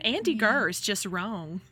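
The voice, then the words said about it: Sweet Southern accent impression. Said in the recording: “In her sweet little southern accent”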